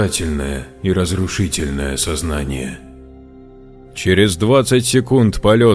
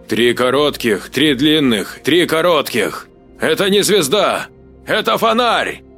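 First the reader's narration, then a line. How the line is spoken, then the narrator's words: Shouting. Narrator (Russian): крикнул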